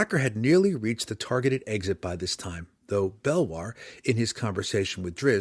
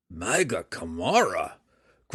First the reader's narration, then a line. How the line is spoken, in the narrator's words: grumbled Belwar